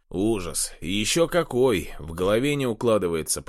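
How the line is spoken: Angry grumble. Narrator (Russian): проворчал Хлопов, сверля парня злыми глазами

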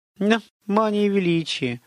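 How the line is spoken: Sad sigh. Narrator (Russian): грустно вздохнула Готесса

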